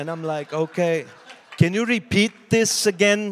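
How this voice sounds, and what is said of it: Usual voice. Nothing is said of it.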